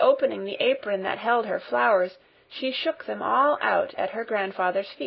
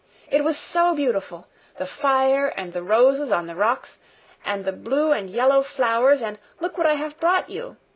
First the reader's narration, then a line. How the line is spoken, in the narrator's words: she cried